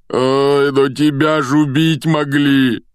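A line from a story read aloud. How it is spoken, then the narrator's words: Moaning. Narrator (Russian): простонал Хагрид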